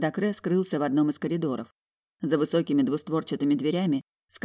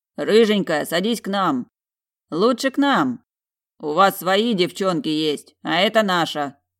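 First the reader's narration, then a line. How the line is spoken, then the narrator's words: Deep-voiced bass. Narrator (Russian): пробасил северянин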